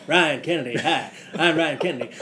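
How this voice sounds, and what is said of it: Impression of Ryan Kennedy, not deep enough. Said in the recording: “I'll try and do an impression of his voice ... You got to go about 12 octaves lower if you're going to do that ... California voice”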